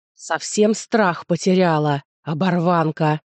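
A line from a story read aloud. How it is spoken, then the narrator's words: Muffled growl. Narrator (Russian): глухо прорычал он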